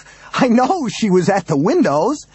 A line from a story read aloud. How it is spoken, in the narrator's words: Daniels half laughed, half screamed at him